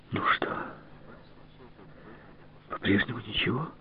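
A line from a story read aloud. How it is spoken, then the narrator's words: Sighed. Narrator (Russian): вздохнула Марьяна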